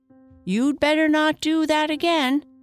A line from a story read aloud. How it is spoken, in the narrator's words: said to herself and shouted out